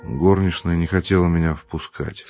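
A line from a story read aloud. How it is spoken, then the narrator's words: Plain. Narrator (Russian): сказал он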